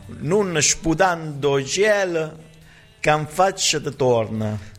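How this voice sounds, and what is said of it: Convincing put-on Neapolitan accent. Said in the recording (Italian): “Devi leggere in napoletano. ... Mamma mia, mi è sembrato di sentire proprio un napoletano.”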